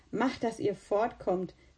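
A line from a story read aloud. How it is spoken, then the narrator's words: Laughing. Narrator (German): lachte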